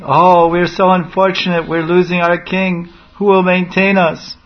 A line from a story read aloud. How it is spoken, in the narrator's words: they were all wailing